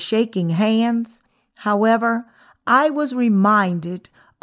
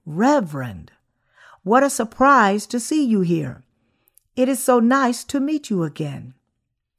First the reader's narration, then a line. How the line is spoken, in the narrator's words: I greeted him warmly and said